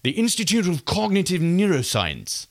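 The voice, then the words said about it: Poor put-on British accent. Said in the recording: “we should say it in a British ... it was a terrible British accent.”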